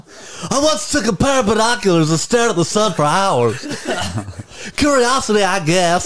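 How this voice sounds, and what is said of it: Harry Caray impression. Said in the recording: “did that voice, but him doing that voice ... I've been doing Harry Carey for years”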